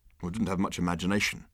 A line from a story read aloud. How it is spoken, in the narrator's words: muttered Arthur